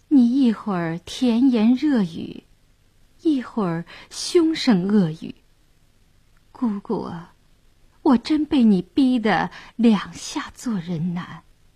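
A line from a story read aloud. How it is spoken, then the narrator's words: Dazed, soft sigh. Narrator (Chinese): 谭健儿倒愣了，轻叹一声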